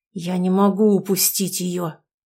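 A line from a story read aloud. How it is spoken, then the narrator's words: Strained, after a pause. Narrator (Russian): выдавил из себя Альфа после минутной паузы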